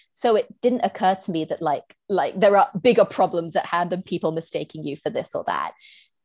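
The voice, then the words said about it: British accent. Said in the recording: “my accent ... I sound British as hell”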